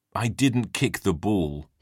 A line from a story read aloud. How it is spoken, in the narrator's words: he grumbled